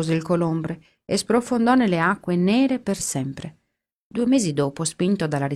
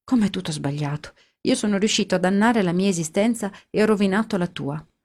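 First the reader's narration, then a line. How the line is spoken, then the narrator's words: Sad. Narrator (Italian): disse scuotendo tristemente il capo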